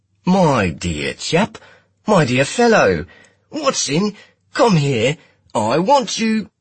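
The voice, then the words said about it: Exaggerated flat Cockney accent. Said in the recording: “He smashed his round Midwestern accent into the flattest Cockney I'd ever heard.”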